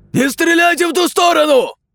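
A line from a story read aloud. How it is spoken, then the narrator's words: Wounded man shouting. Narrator (Russian): закричал один из раненых ОМОНовцев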